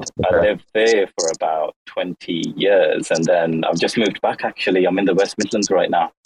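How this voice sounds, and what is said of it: Unusual mixed English accent. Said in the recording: “very unique accent ... He's a lovely, cute voice, isn't he?”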